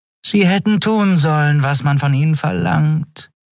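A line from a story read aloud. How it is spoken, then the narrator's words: Purring. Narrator (German): schnurrte Shi'ar hinter seinem Rücken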